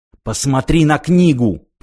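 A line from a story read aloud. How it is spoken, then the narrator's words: Hiss. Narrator (Russian): прошипел он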